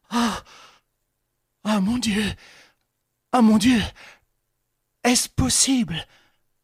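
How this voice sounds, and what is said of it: Terrified, exclaiming voice. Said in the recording (French): “s'exclamait avec un accent de terreur”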